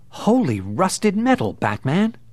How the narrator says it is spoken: he heard Robin exclaim

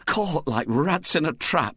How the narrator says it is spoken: groaned

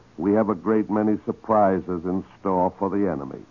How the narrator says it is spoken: Churchill chuckled and said

